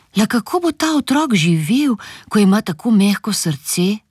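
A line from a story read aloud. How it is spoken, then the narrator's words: Worried father. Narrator (Slovenian): je zaskrbljeno rekel očka mami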